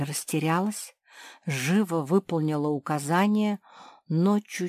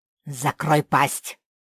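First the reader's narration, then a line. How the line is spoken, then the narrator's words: Rough gnome's command. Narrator (Russian): грубо приказал гном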